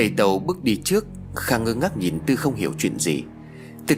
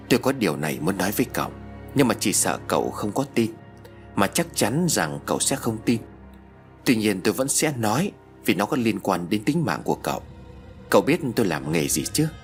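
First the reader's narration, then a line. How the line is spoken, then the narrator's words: Sighing soft reply. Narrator (Vietnamese): Thầy Tàu thở dài rồi khẽ đáp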